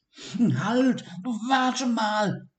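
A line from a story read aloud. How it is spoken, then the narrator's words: Call. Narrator (German): rief Sigi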